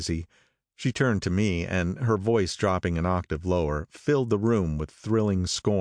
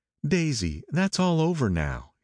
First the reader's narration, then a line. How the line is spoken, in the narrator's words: he said earnestly